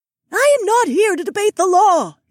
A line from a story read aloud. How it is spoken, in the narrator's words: Isi shrieked